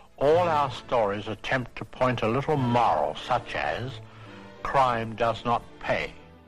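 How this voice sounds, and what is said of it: Thick accent, like peanut butter in mouth. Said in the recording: “his accent, man. It sounds like he's got like peanut butter in his mouth”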